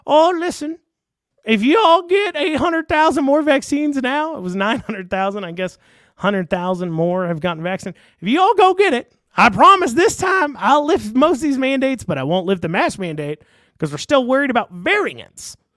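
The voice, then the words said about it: Imitates another person's voice. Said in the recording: “I'm doing this voice for Beshear. I'm sure his voice is more nasally and whiny when he's actually talking”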